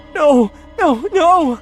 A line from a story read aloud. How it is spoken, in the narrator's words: I cried